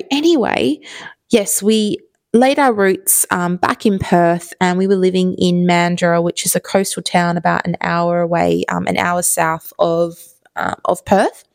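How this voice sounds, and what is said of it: Strong Australian accent. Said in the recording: “this person sounds, they got a really, really strong Australian accent”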